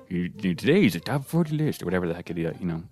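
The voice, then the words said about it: Bad imitation of a radio host. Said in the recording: “atrocious Casey Kasem impression ... that was a terrible impression ... that was so bad”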